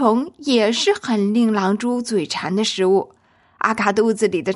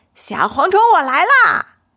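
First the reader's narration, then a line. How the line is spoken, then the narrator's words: Sudden roar. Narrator (Chinese): 阿卡突然大吼一声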